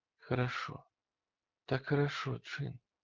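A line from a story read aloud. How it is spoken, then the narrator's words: Whispering. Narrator (Russian): шептала Руфи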